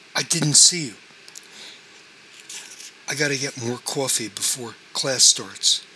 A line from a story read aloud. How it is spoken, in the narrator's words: Ron stammered